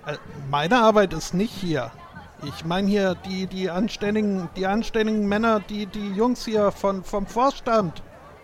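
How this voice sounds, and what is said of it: Put-on regional German city accent. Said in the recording (German): “das ist ein Millionenstadt-West-Akzent”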